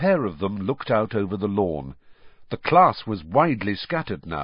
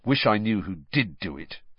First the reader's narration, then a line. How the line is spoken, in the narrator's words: said Harry bitterly